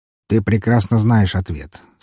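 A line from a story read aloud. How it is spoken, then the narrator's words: Calm reply. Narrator (Russian): спокойно отозвался Уваров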